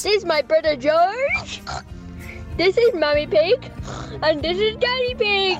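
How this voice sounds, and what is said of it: Child impersonating Peppa Pig. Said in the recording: “impersonations ... I'm Peppa Pig”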